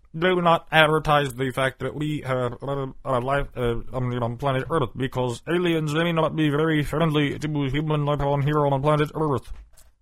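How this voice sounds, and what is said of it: Stephen Hawking impression. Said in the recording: “That was my Stephen Hawking. You know, I'm known for my impersonations of people.”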